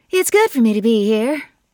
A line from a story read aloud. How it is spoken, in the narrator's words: said brightly, firmly